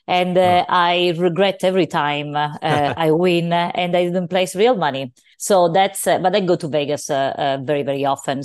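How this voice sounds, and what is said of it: Sicilian Italian accent. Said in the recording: “your accent is a Sicilian accent.”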